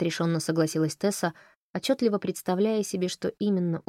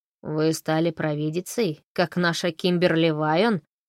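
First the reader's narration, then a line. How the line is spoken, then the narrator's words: Creaky laugh. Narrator (Russian): скрипуче засмеялся Джон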